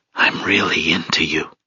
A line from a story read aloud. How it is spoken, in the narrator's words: Fervently, he whispered